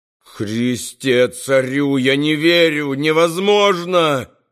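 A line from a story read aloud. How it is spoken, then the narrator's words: Howled. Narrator (Russian): взвыл Баудолино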